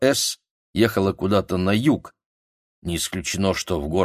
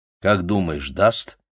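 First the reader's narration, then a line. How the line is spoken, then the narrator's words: Plain. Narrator (Russian): спросил он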